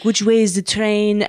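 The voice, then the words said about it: Put-on French accent. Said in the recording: “that's a pretty good French accent.”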